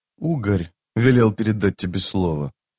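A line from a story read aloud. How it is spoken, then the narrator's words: Quiet. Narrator (Russian): тихо произнес тот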